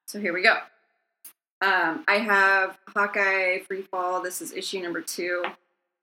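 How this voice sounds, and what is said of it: Hoarse, fading voice. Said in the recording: “My voice is also going out today.”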